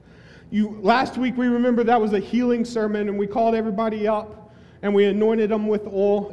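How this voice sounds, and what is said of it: Southern American accent. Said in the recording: “that was my southern accent”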